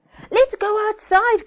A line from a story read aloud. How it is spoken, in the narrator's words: cried Emma